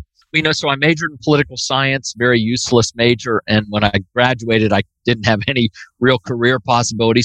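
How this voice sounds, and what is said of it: Pittsburgh accent. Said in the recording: “you still have a Pittsburgh accent, my friend ... every now and then when I say something like Fox Chapel, it does come out with a Pittsburgh accent.”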